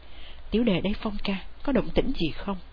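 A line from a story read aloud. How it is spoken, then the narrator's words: Quiet question. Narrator (Vietnamese): Chàng hỏi khẽ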